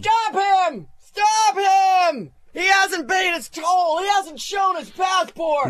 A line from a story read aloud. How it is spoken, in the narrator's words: It gnashed its teeth and yelled